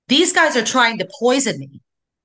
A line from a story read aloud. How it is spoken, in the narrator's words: Tammy says clearly and loudly